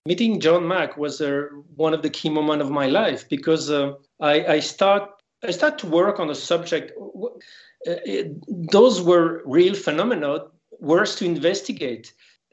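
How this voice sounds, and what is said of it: French accent. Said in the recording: “is French. ... You have a wonderful accent.”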